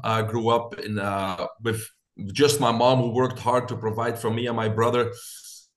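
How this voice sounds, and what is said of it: Belgian accent. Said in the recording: “I got this accent. I'm originally from Belgium.”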